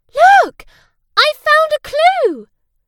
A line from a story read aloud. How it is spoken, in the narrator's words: Suddenly, Sarah cried